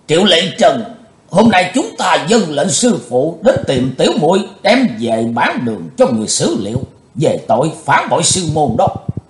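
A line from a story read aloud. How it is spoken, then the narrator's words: Loud speech. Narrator (Vietnamese): sứ giả Hải Âu lớn tiếng nói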